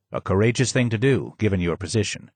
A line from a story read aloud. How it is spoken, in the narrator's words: he said